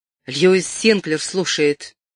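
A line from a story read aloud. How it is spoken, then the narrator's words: Sharp, hateful. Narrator (Russian): с ненавистью взглянул на телефон и резко проговорил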